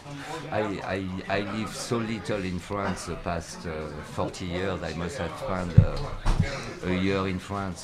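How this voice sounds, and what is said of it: French accent. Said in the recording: “I've not too French in, you know, except for the accent.”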